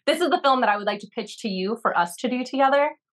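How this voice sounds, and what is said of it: Put-on British accent. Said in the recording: “I can do a British Tribeca accent too”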